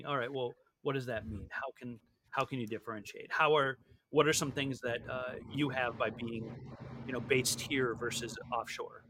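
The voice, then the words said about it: English accent. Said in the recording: “you have an English accent”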